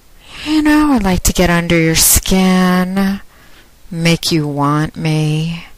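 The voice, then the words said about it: Sultry, seductive voice. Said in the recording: “my sexy voice”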